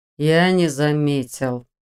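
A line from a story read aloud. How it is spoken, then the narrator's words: Through gritted teeth. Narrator (Russian): сквозь зубы процедил генерал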